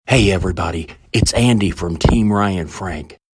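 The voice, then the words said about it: Whispering. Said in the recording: “Why am I whispering”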